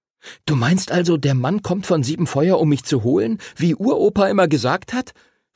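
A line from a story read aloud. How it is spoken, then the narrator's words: Excited question. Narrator (German): fragte Henry aufgeregt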